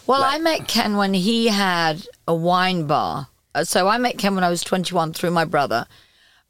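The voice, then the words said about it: Speaks with a noticeable accent. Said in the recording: “it's the accent. It can fool you.”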